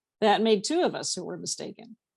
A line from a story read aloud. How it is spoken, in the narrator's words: Pam said dryly